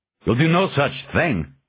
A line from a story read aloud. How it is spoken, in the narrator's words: Gordon snapped